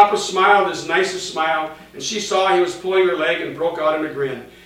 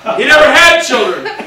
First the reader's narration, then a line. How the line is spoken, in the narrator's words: Mama yelled